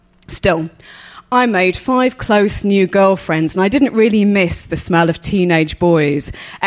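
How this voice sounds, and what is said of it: Posh English accent. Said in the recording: “my wobbly posh Geordie accent, which as you can tell is now just posh”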